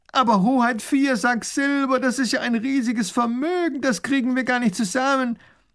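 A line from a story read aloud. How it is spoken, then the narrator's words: Baron calling out. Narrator (German): ruft der Baron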